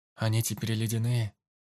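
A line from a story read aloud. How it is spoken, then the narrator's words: Calm question. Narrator (Russian): спокойно спросил Марк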